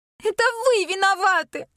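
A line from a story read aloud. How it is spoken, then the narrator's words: Sobbing. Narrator (Russian): рыдает она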